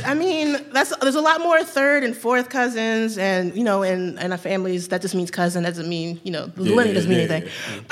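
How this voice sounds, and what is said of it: Southern American accent. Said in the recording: “I sound like an angry Southern baby”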